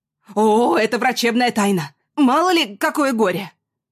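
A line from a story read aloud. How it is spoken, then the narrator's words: Stern shout. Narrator (Russian): Строго крикнули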